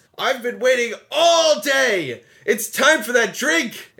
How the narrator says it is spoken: Cass drunkenly yells

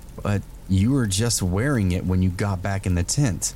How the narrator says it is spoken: After a brief pause, I managed to stutter out

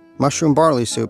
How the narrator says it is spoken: he shouted

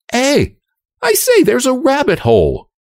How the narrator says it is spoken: cried Anne suddenly

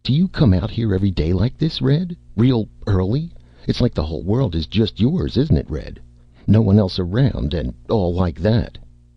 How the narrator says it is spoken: Slim said eagerly

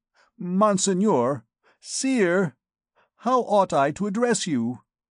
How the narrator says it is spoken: stammered he

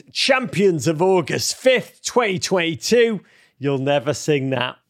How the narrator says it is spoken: At Austin Bundy, DC, screamed

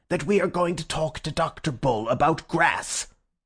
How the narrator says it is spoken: asked the professor furiously

